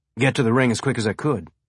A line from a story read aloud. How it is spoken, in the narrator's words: Alex said, more quickly this time